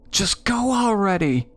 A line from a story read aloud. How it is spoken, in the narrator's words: my sister hollered in my ear